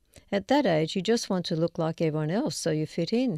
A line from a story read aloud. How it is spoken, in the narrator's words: he says